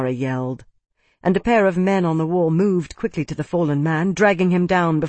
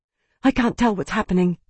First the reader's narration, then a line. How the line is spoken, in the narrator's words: Amara panted